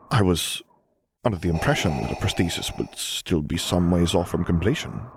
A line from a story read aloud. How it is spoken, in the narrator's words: she muttered, and only an edge of suspicion coloring her voice